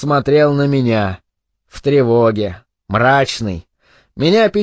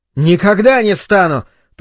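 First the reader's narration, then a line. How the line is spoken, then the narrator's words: Very loud shout. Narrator (Russian): прокричал он так громко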